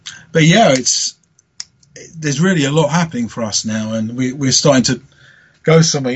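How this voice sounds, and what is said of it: Tired-sounding voice. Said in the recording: “I'm pretty tired by it, as you might be able to tell from my voice”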